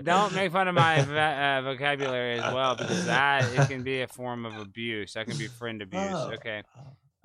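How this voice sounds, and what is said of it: Slight Texas twang. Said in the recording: “I talk from Texas. I have a little bit of a Texas twang.”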